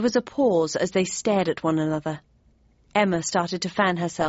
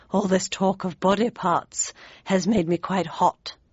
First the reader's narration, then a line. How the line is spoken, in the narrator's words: she murmured